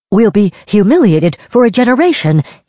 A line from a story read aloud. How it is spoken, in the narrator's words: he cried in sheer disbelief